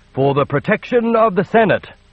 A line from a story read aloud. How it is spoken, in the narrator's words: the Emperor nearly shouted